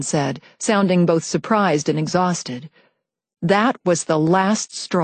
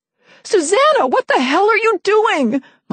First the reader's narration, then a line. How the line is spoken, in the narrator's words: my mom screamed